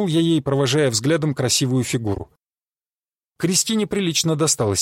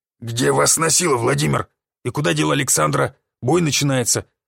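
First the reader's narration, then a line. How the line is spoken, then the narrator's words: Grumbling. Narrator (Russian): проворчал он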